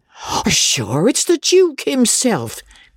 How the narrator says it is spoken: cried Mrs

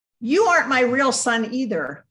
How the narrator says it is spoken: shouted in my head

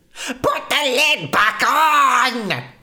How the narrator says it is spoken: he shouted

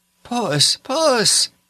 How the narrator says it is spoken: called out Ruth in an entreating voice

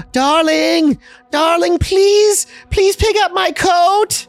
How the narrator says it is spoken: she yells

